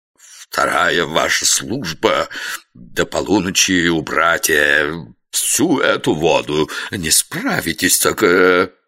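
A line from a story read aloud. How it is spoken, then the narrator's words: Breathless hateful hiss. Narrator (Russian): Трусарди, едва дыша от ненависти, прошипел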